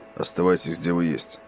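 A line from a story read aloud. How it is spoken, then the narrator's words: Quiet command. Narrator (Russian): негромко велел он Эдди и Джейку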